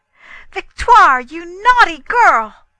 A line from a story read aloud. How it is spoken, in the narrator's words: feeling dreadfully angry, and stamping my foot furiously, I cried out